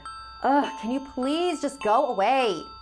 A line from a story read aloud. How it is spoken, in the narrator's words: I shouted